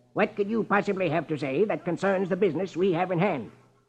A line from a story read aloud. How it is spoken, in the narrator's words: Marlowe snaps